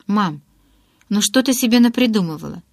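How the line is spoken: Hurried, deliberately carefree. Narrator (Russian): торопливо ответила я нарочито беззаботно

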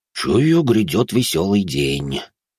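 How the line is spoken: Sighing. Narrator (Russian): вздохнул Свешников

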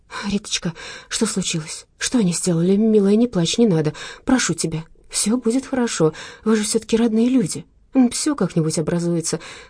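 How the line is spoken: Hurried soothing. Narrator (Russian): торопливо говорила Маша

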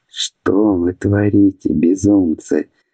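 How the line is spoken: Breathed out. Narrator (Russian): выдохнул Аубран

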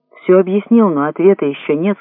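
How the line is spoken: Plain. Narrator (Russian): сказал пилот

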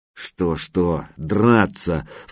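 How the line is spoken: Through gritted teeth. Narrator (Russian): сквозь зубы процедил Лыков-младший

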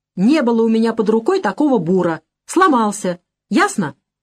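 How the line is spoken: Snapping. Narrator (Russian): огрызнулся Осипов

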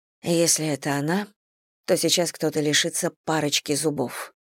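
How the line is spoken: Muttered. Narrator (Russian): пробормотала Селия

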